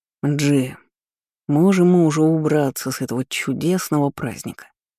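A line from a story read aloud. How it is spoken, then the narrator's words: Gloomy grumble. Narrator (Russian): хмуро проворчал Ламбикор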